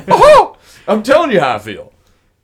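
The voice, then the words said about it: Voice raised an octave. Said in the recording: “I raised my voice an octave.”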